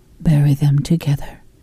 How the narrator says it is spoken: she says softly

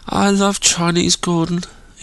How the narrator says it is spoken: moaned

